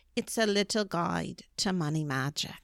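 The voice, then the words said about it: Imitated British accent. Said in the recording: “She has a British accent ... Oh, British. I know how to do that ... it sounds exactly like that”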